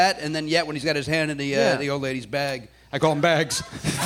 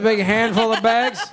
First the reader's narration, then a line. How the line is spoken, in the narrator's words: I laughed at the dust coming out of her vagina against my will, against my very fucking will